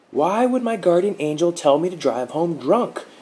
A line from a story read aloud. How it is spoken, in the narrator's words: Mark yelled, saliva flinging from his lips